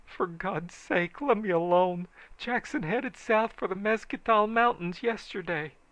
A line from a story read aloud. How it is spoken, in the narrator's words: This feller begged